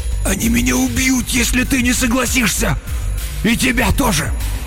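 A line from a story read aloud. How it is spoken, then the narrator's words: Hoarse wheeze. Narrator (Russian): Он прохрипел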